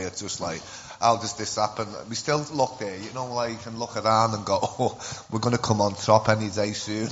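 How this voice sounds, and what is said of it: Scouse accent, fast speech. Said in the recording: “as you can tell, I'm from Liverpool. I'll try and slow down because the Scouse accent, apparently we talk too fast.”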